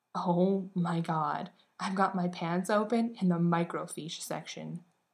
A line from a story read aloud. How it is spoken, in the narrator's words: said in a stifled, horrified voice